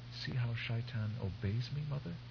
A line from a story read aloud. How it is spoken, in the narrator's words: Her voice little more than a whisper, Shiana said